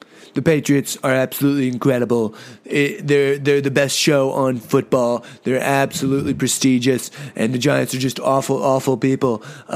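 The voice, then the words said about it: Imitates another person's voice. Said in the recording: “This is my Trump voice ... I know it's not that good ... best Trump impression”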